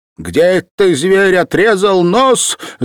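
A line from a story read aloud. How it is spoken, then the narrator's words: Angry shout. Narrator (Russian): закричала она с гнева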